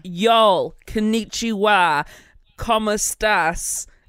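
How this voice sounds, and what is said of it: Put-on American accent. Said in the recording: “konnichiwa the in an American accent”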